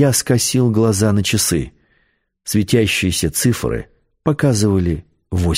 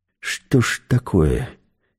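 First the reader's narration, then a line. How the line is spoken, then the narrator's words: Quiet. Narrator (Russian): тихо сказал я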